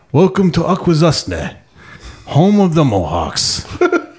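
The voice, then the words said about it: Slow parody of another person's voice. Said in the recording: “in a Mike Mitchell voice ... He wanted to sound more, I don't know, slower or something ... I fucking parodied Mike's voice”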